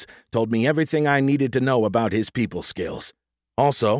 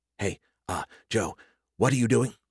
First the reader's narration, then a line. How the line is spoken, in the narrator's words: Skippy whispered in my earpiece